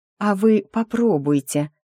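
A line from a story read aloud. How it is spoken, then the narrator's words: Gentle, smiling. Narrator (Russian): по возможности ласково улыбнулась я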